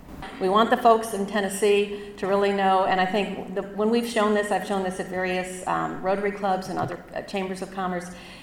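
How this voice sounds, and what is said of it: Nasal Chicago accent. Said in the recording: “I have this nasal Chicago accent”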